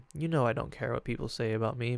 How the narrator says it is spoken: He calmly tells her

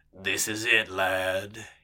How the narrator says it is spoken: he rumbled

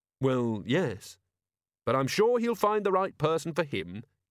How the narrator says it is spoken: Carrot added cheerfully

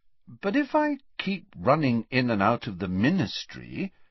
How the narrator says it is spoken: said Harry, still endeavouring to keep his voice friendly

